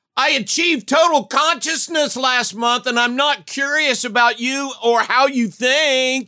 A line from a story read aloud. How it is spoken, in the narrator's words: Zooks yells at the Brynar